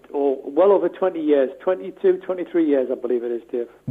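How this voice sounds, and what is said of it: Geordie Newcastle accent. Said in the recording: “That accent is not from Willesden ... I'm a Geordie from just outside of Newcastle ... we haven't knocked your accent into shape”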